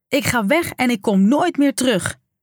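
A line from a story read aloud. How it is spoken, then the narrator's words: Teenage daughter bellowing. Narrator (Dutch): brulde haar 16-jarige dochter Joelle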